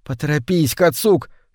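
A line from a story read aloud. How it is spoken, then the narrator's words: Boy whispering. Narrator (Russian): шептал мальчик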